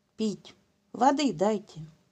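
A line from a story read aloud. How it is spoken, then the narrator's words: Whisper. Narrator (Russian): прошептал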